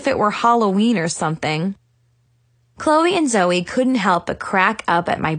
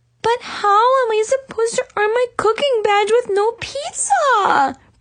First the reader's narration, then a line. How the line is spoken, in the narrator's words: whined